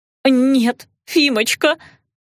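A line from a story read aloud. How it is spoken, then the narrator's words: Sobbing. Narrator (Russian): кузина сызнова зарыдала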